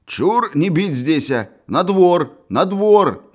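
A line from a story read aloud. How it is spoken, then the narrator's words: Shouting. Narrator (Russian): кричал комиссар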